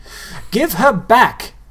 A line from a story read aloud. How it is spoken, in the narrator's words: Nobody yelled